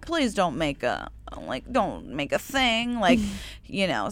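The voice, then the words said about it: Imitates another person's voice. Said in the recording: “good impression of your brother... That's exactly how Danny sounds.”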